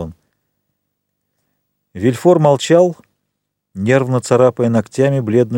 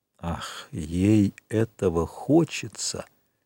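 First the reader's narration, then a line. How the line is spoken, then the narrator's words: Ominous tone. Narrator (Russian): сказал Вильфор зловещим тоном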